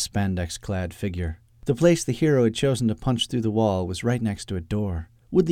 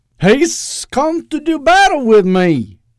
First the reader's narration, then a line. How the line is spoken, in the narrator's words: Eustace cried with a note of joy in his voice